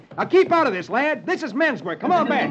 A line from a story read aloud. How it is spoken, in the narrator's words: Roy shouts